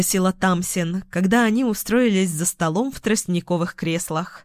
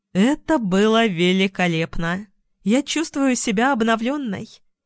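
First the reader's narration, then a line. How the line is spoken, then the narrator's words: Happy sighing announcement. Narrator (Russian): Счастливо вздохнув, сообщила она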